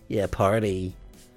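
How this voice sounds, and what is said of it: Put-on American accent. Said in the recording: “Why are you saying it in a stupid American accent?”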